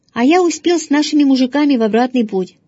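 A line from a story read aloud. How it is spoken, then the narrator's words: Cheerful. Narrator (Russian): сказал отец весело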